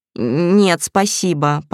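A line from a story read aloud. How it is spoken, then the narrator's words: Mumble. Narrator (Russian): промямлил вечно голодный Славик, которому именно сейчас есть резко расхотелось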